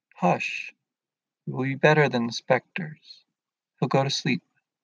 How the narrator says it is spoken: Will softly saying

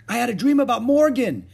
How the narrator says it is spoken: exclaimed Annie

